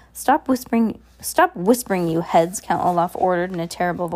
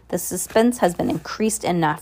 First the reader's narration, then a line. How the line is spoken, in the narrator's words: replied the man in the pimpled chin impatiently